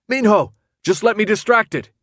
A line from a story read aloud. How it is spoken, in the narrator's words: he yelled